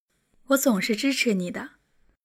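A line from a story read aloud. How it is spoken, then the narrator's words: Warm, smiling. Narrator (Chinese): 婉晴温柔的看着张可，笑着说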